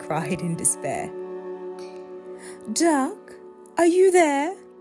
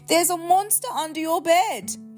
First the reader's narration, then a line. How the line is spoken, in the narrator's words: cried Pig